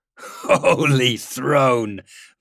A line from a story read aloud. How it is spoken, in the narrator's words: Valentin laughed